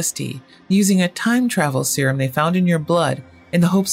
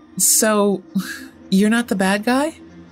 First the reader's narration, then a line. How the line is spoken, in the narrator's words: He laughed